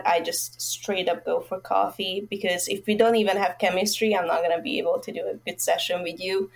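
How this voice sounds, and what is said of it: Hungarian-accented English. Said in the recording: “Where's your accent from? ... I'm from Hungary.”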